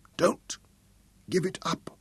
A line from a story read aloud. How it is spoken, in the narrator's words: mumbled